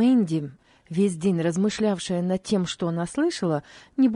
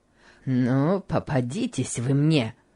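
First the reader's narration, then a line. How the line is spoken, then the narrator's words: Muttering through teeth. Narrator (Russian): бормотал Гейли сквозь зубы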